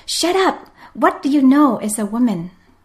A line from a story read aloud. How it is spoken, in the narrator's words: another man shouted at her